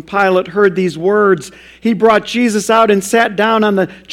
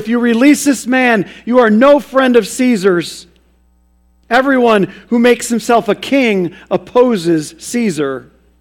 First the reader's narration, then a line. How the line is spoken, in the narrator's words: the Jews cried out